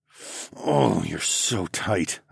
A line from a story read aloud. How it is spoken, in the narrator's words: I growled